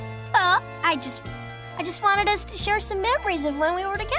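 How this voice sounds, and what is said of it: Usual voice. Nothing is said of it.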